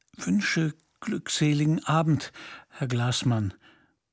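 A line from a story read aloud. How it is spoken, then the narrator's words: Throat-clearing, trembling voice. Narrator (German): räusperte sich und sprach mit zitternder Stimme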